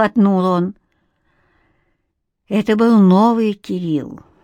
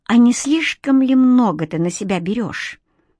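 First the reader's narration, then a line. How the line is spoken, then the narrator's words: Cold, icy muttering. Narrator (Russian): Моментально заледенев, пробормотала Ника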